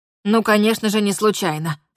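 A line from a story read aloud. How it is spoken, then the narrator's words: Stern declaration. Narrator (Russian): строго заявила она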